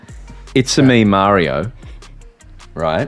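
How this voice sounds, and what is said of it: Exaggerated Italian accent. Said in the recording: “It works in Italian accent.”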